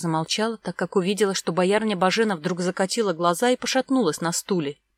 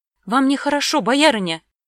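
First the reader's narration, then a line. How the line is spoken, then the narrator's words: Exclamation. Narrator (Russian): воскликнула Вера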